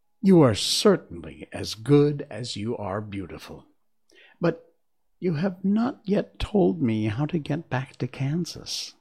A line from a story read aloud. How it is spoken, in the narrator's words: Dorothy exclaimed